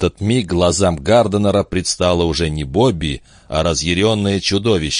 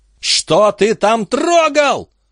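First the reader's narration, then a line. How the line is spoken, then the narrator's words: Piercing hateful scream. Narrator (Russian): пронзительно заорала Бобби, устремив на него ненавидящий взгляд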